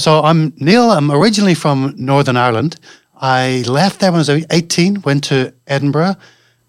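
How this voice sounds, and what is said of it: Mixed Northern Irish, Scottish, London accent. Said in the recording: “it's not a native accent that you've got ... my accent is pretty stuffed up. There's Northern Irish, Scottish, a little bit of London”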